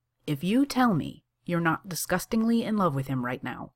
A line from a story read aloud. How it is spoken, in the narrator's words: says Siebes evenly